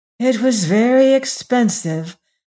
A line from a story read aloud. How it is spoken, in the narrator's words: sighed lovely Agatha